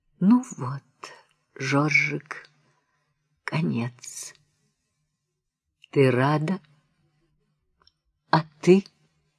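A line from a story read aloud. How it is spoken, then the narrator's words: Quiet. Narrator (Russian): Она говорит тихо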